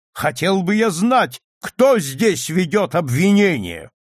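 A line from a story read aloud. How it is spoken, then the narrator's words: Furious thundering voice. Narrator (Russian): сей джентльмен в ярости прогремел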